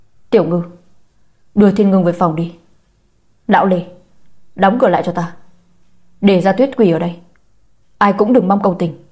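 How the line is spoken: Angry old man. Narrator (Vietnamese): Ông cụ tức giận nói

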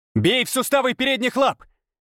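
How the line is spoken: Mental shout. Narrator (Russian): крикнул я мысленно

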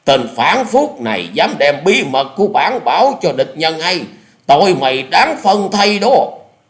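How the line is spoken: Commanding shout. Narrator (Vietnamese): quát lên một tiếng như lệnh dở

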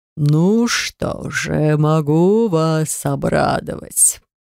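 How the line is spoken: Drawn-out voice. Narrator (Russian): протянул полупризрачный человек

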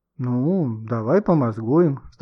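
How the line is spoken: Sighing. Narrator (Russian): вздохнул Гошка

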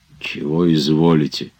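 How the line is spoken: Barely audible hiss. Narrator (Russian): чуть слышно прошипел Захар

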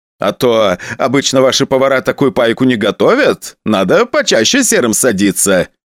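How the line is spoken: Laughing. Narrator (Russian): посмеялся он

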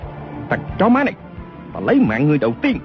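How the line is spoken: Furious loud shout. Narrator (Vietnamese): không kiềm chế được nữa, chàng quát lớn

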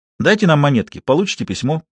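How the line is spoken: Plain, boy's voice. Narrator (Russian): сказал мальчик

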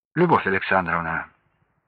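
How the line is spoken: Calm voice. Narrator (Russian): уже спокойным голосом обратился

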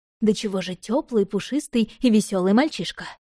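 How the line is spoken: Continuous growling. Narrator (Russian): рычал без остановки

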